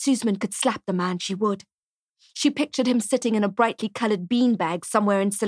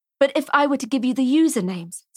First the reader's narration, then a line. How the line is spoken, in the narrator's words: says Robin